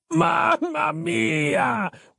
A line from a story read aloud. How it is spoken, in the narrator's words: wailed Giuseppe